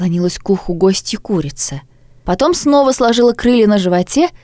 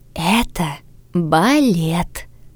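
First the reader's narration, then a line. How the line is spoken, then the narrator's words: Whispering hen. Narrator (Russian): прошептала курица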